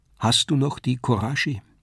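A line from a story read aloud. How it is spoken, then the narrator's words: Sad question. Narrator (German): fragte sie, traurig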